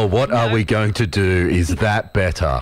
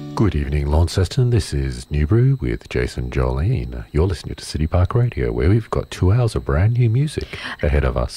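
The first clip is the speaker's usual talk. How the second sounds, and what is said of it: Boring American public radio host voice. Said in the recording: “Did you just make that the most boring radio entry ever? ... I'm practicing my American public radio host voice. ... my new fancy radio voice”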